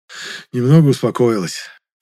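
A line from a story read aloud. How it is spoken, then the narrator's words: Stepfather sighing. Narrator (Russian): вздохнул Мулин отчим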